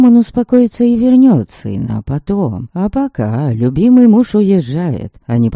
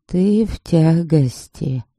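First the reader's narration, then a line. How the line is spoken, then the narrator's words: Calm old woman. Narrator (Russian): произносит старуха спокойно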